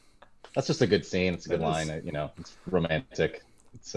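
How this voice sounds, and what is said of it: Usual voice. Nothing is said of it.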